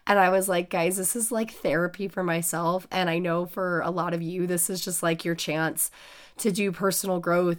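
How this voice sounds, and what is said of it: Sick, rough-sounding voice. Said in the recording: “bit under the weather still ... I sound like hell ... my voice is very unattractive to listen to right now”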